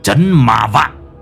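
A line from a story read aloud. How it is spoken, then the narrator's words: Harsh, gritted voice. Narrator (Vietnamese): Lão Năm gằn giọng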